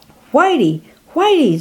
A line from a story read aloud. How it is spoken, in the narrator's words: Zophar called out